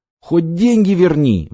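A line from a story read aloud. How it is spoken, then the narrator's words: Pleading. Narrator (Russian): взмолился Крылов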